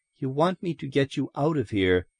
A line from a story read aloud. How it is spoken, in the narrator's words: she said softly